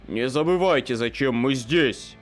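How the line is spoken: Leader's growl. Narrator (Russian): рыкнул главарь

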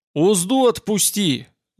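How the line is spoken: Deafening shout. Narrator (Russian): закричал Сувор оглушительно

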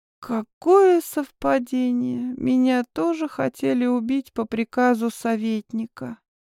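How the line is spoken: Hoarse. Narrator (Russian): сипло подала голос

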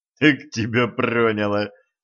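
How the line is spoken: Laughing. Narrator (Russian): засмеялся Денис

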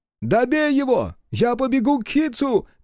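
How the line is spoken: Shouted. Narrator (Russian): крикнул Биру

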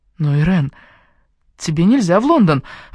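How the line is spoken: Exclaimed. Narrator (Russian): воскликнула я

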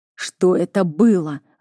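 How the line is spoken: Growled. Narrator (Russian): рыкнул он на нее

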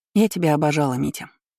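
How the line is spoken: Plain. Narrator (Russian): сказала Роза

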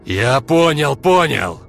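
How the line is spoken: Roared. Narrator (Russian): взревел Олег

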